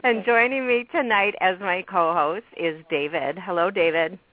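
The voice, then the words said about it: Sore-throated, fading voice. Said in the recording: “I'm getting a sore throat and losing my voice”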